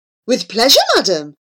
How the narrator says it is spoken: exclaimed Abu, startled out of his dread

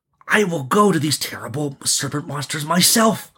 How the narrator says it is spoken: he breathed excitedly

